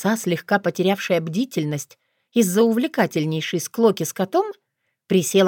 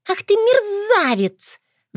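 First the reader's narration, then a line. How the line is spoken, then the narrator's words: Shrieking fox, outwitted. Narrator (Russian): взвизгнула лиса, осознав, что ее хитрость не сработала, и мало знакомый человек знает ее секрет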